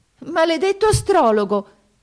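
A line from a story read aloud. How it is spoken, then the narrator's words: Princess exclaiming. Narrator (Italian): esclamò la principessa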